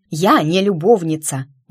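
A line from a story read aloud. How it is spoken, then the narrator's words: Indignant exclamation. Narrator (Russian): воскликнула возмущенно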